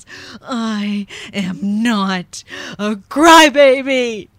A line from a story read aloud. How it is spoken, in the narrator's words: in an angry voice with tears streaming down his face, he yells